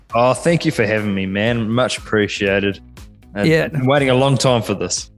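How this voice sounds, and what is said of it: New Zealand accent. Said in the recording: “I'm actually detecting a Kiwi accent ... I detected a New Zealand accent there”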